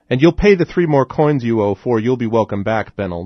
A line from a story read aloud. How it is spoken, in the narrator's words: the burly man shouted